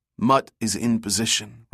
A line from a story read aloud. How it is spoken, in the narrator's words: replied Bjorkes